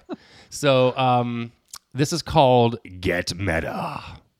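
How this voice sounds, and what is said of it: Put-on deep voice. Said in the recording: “just your deep voice. ... My deep voice.”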